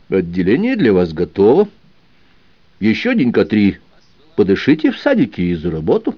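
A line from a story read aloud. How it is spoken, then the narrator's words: Calm reply. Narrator (Russian): спокойно ответил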